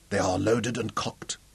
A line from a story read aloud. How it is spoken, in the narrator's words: said huskily